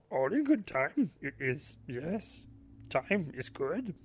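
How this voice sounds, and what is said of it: Bad Yoda character voice. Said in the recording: “bad Yoda imitation”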